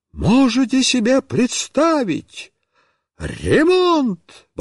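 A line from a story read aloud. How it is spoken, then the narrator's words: Exclaiming. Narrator (Russian): воскликнула Марья Петровна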